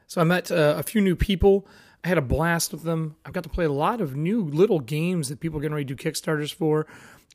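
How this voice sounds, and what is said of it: Scratchy, hoarse voice. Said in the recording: “as you can hear, my voice is scratchy, and it's from the craziness that is this convention”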